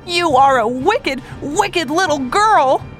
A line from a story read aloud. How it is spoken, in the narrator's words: Joe cried